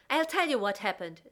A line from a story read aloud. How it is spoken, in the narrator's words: Zoe shouted